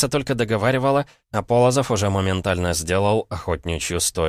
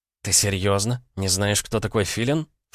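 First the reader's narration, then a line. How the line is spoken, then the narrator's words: Incredulous snort. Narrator (Russian): фыркнула Алиса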